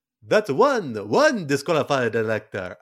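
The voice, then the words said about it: Not-so-good put-on accent. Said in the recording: “Maybe not my best accent.”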